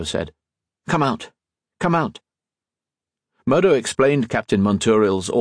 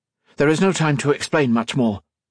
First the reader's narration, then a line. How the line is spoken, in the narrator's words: Colette said urgently